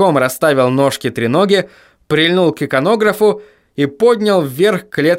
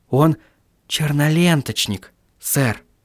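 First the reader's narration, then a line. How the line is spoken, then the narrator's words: Whispering. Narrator (Russian): прошептал Маркоу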